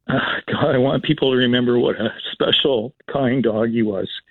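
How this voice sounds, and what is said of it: Emotional, moved voice. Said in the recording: “I'm getting a bit emotional.”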